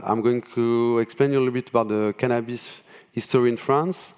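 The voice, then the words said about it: French-accented English. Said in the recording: “as I'm French, as you could probably hear from my accent”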